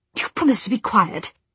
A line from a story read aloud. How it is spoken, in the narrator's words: He hissed into his friend's ear